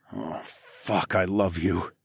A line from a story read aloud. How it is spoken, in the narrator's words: I groaned